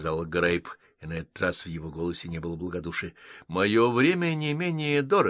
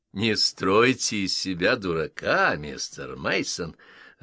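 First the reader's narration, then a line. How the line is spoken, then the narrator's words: Laughing. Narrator (Russian): рассмеялся Грейп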